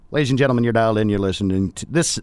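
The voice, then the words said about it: Put-on Texas twang. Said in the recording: “I keep doing my Texas twang.”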